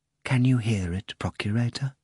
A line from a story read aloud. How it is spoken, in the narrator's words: the high priest repeated quietly